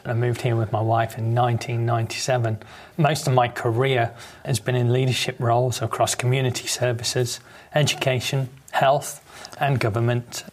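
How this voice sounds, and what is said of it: British accent. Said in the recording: “If you haven't guessed by the accent, I'm originally from the UK.”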